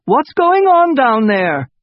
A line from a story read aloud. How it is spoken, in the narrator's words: shouted Isabel's godmother from the top of the steps